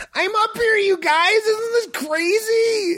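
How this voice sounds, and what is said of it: Hyper positive imitation of another person. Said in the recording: “my impression of Pete Holmes doing an impression of Jesus on the cross ... Hyper positive or something.”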